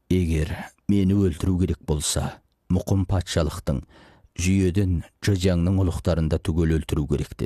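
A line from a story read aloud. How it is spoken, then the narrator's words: Plain. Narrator (Kazakh): деді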